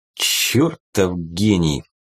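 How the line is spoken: Slow. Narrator (Russian): медленно проговорил клинок

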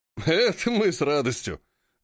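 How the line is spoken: Men laughing together. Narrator (Russian): рассмеялись законники

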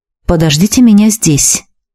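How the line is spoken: Muttered. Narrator (Russian): пробормотал Надиру

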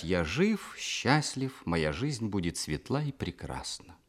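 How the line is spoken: Forced calm. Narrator (Russian): Каждый раз приходилось делать усилия, чтобы спокойно сказать

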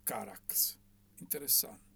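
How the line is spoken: Murmured. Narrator (Italian): mormorò

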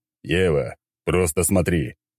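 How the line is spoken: Angry. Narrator (Russian): сердито сказал я

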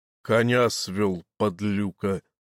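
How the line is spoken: Commanding voice. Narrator (Russian): ответил тот властным голосом, по которому сразу можно было признать сельского войта

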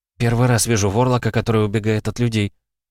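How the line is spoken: Breathed out. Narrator (Russian): выдохнула я

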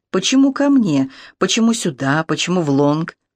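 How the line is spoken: Deep sigh, no accent. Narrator (Russian): Жанин Фукампре глубоко вздохнула и начала, на сей раз без своего прелестного акцента

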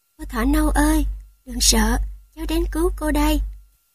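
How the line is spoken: Said softly, wolf cub. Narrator (Vietnamese): sói con rón rén đến gần cái bao nói khẽ

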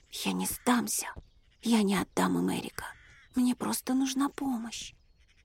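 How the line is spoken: Whisper through clenched jaws. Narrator (Russian): шептала сквозь стиснутые скулы девушка

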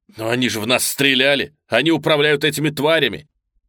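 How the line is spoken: Nearly shouting. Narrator (Russian): Дэрил почти кричал

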